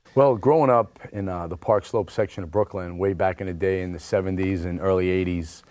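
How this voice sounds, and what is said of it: Brooklyn accent. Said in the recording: “he's from Brooklyn. He's got the BK accent and everything.”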